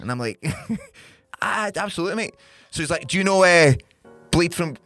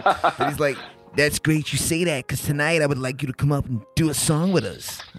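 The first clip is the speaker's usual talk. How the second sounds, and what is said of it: Terrible put-on American accent. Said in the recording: “a terrible accent as well, but it's my American accent.”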